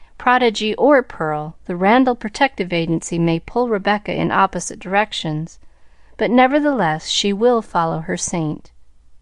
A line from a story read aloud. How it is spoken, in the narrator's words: sighed Miss Maxwell whimsically